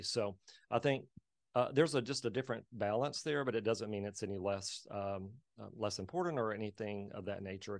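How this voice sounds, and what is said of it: Slight accent. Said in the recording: “they hear a little bit of an accent”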